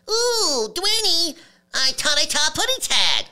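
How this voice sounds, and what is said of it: High-pitched Tweety Bird voice. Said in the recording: “I'm already doing a self-pitch when I do Tweety”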